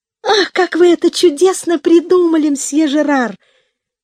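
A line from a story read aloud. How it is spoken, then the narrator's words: Delighted girl's cry. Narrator (Russian): вскрикнула от восторга девочка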